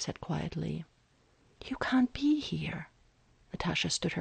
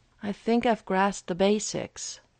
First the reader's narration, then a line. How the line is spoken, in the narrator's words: Steve replied bitterly